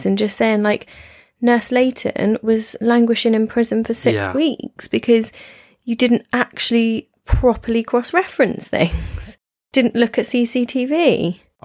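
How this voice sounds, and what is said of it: Scolding mum-like voice. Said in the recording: “putting on my mum voice”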